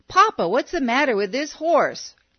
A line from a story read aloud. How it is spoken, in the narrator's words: He hollered